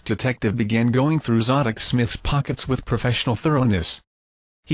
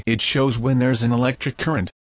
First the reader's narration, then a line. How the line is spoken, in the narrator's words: said Wade